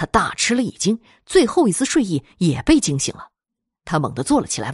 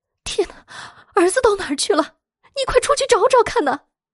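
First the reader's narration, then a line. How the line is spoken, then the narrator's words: Agitated, near tears. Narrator (Chinese): 妻子神色十分激动，甚至都快哭出来了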